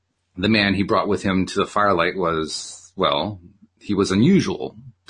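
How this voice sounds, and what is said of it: Usual voice. Nothing is said of it.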